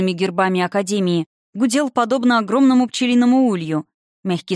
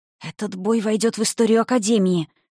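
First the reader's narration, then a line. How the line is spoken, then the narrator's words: Whispered. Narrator (Russian): шепотом говорили одни кадеты другим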